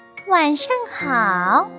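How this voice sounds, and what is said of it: Child-like voice. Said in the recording (Chinese): “用小孩的声音说”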